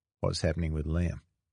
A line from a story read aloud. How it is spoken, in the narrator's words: Kieran said quietly to Sean